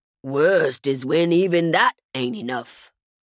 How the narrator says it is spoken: Walter said with a gravelly sigh

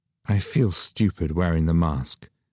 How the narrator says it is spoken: she said in a soft voice to Gabriella

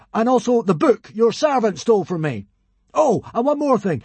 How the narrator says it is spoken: cried Hiccup

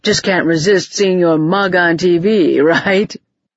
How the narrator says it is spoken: He wheezed, as if the short push through the crowd had been almost more than he could bear

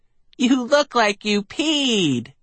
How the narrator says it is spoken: He shouted

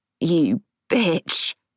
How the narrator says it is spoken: Neil rasped

